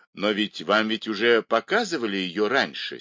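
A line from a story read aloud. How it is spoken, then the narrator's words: Angry exclamation. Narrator (Russian): сердито воскликнул Бергер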